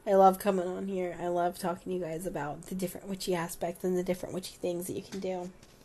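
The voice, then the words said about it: Sick, slightly out-of-breath voice. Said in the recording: “I'm feeling under the weather... I think you guys can tell I'm a little out of breath... I just have a really, really intense head cold”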